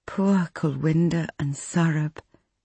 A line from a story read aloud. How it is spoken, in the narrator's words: Nikki said